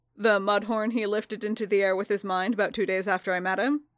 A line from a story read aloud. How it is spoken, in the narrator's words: Din said dryly